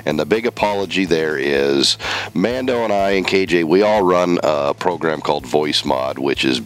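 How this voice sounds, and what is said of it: Loud voice affected by a cold. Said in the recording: “I'm dealing with a cold this week. If the listeners probably can tell the difference. My voice is loud. It's obnoxious.”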